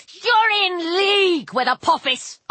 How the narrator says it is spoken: I yelled

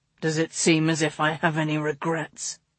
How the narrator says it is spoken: He growled against her lips

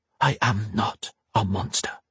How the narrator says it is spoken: she whispered under her breath

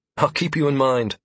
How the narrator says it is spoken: I replied, flashing a smile

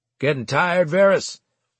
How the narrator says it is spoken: Lisa's top non-com called out

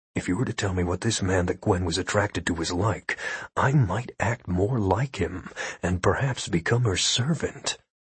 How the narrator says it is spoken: said quietly

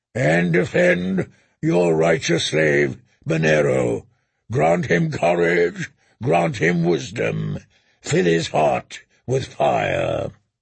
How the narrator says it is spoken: the Red Priest boomed

